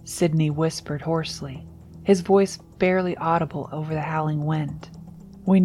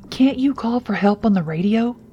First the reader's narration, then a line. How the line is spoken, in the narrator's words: Chad asked frantically